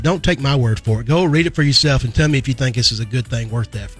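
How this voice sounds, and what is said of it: Kentucky accent. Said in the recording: “your accent, your Kentucky accent.”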